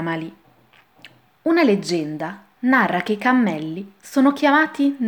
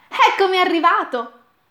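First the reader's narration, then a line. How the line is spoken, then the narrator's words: Exclaimed. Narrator (Italian): esclama Alì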